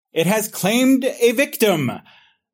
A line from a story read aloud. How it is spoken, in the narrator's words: the professor shouts at them